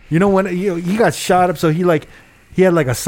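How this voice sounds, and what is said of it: Usual voice. Nothing is said of it.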